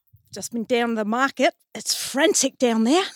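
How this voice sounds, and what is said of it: Imitated New Zealand accent. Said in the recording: “shall I do my Kiwi accent? ... Go on, you do your Kiwi accent.”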